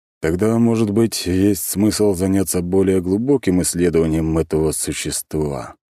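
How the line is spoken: Heavy sigh. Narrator (Russian): тяжело вздохнул Павел Александрович

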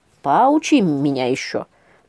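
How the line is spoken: Grumbling. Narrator (Russian): проворчал Волк

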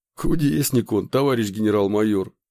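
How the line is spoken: Chuckling. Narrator (Russian): хохотнул Николай

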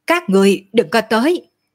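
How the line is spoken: Shouting. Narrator (Vietnamese): hét

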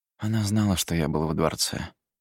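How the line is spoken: Quiet, very tired. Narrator (Russian): сказал тихим, очень усталым голосом

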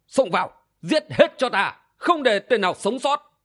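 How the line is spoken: Commanding shout. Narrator (Vietnamese): Phong Đô Minh Vương quát

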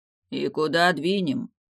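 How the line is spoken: Gloomy question. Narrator (Russian): мрачно вопросил Далиль

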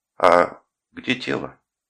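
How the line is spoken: Relieved sigh, asking. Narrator (Russian): Я вздохнул с некоторым облегчением и спросил

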